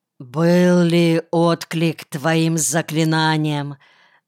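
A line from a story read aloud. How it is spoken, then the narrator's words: Muffled, hollow question. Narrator (Russian): глухо спросил Калиантагроу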